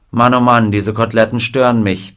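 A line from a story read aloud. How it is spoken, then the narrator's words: Dry remark. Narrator (German): bemerkte trocken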